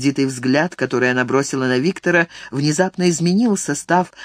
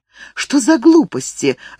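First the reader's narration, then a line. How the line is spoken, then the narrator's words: Irritated exclamation. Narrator (Russian): раздраженно воскликнула она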